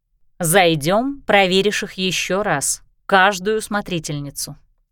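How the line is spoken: Plain. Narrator (Russian): ответила Кристина

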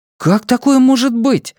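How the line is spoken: Exclamation. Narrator (Russian): воскликнул Джейк

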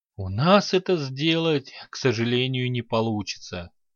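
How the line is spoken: Sighing. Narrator (Russian): вздохнул темный император

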